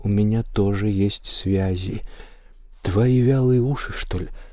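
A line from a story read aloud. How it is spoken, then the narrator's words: Mysterious near whisper. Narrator (Russian): Он загадочным тоном, практически шепотом, говорит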